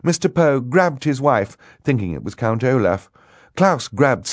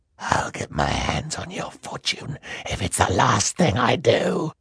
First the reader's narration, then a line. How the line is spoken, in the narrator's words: the voice hissed